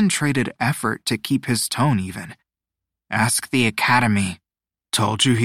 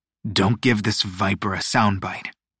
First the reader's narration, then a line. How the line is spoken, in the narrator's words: Malasuerte growled, his lip curling with distaste